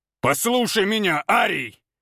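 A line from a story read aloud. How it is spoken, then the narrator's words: Growled. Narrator (Russian): зарычал Валентин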